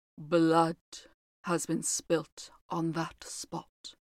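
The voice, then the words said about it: Low, mysterious voice. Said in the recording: “replied the housekeeper in a low voice ... in the same low, mysterious voice”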